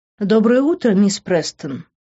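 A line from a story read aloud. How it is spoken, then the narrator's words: Affectionate, gentle. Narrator (Russian): ласково произнесла Дороти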